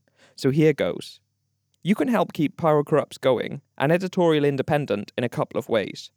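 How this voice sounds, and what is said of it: Sophisticated-sounding non-American accent. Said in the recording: “it would sound more sophisticated with my accent, particularly for the Americans listening”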